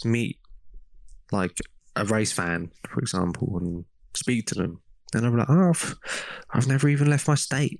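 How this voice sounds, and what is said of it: English accent. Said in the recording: “I'm Asian with an English accent”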